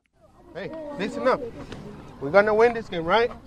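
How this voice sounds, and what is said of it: Mexican Spanish accent in English. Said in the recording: “Miguel Vasquez is shy about his English accent.”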